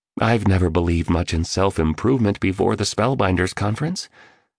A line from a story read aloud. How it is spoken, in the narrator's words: stated flatly